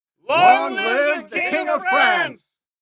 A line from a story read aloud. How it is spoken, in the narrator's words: they shouted